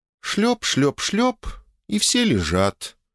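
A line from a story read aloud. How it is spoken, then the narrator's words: Bewildered. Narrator (Russian): растерянно проговорила Оля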